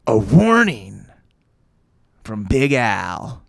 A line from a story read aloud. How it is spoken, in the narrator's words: Joe said grimly